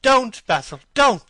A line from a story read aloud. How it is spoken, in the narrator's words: he cried